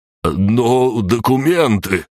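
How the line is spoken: Desperate drawl. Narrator (Russian): отчаянно протянул Виктор Викторович

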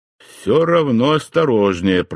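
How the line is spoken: Grumbled. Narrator (Russian): проворчал я

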